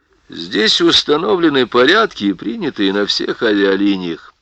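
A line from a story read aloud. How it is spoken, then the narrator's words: Calm remark. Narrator (Russian): спокойно заметил Сакович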